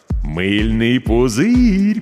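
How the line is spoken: Drawled. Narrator (Russian): протянул Миша

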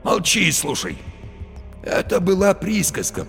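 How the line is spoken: Hoarse wheeze. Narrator (Russian): просипел Барила

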